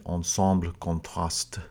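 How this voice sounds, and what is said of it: Put-on French accent. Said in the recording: “if you want to give it the French accent”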